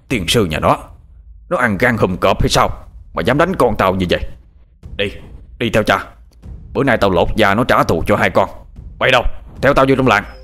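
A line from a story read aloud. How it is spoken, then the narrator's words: Angry shout. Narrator (Vietnamese): tức giận quát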